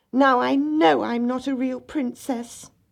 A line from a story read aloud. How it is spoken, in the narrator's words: the little princess cried